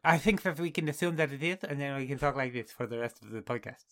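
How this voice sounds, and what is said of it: Imitates another person's voice, lisping. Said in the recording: “my Chris Eubank impression ... Sorry to anybody who has a speech impediment ... That was horrible ... a mocking of Chris Eubank”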